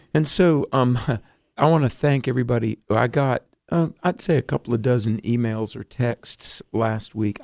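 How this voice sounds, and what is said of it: Strained, tired voice. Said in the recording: “is still a little strained and that his voice is a little tired”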